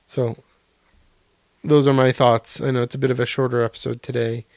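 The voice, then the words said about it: Strained, fading voice. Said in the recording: “my voice is kind of going”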